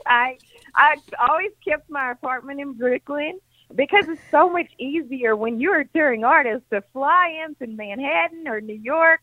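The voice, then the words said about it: Tennessee Southern accent, not New York. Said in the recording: “your accent, though, is not a New York accent. ... I'm still a Tennessean, too”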